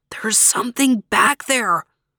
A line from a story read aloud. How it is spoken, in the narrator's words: he whispered again